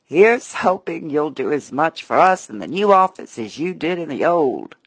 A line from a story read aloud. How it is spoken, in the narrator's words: Some friends with a laughing